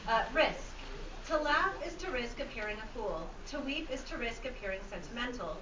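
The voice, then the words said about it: Firm, clear teacher-style reading voice. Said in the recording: “I'll use my teacher voice.”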